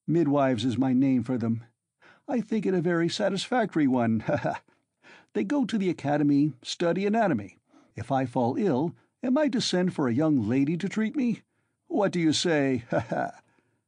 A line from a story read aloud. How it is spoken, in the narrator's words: Ilya Petrovitch laughed, quite pleased with his own wit